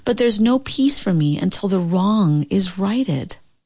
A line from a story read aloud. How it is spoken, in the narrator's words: said Catkin sadly